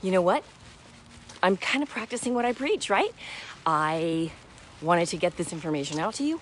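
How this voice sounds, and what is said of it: Slightly out of breath. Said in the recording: “a tad bit out of breath as I'm talking here”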